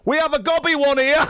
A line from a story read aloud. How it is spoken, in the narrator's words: A lady shouted